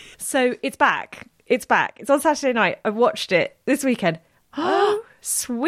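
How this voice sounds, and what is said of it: Usual voice. Nothing is said of it.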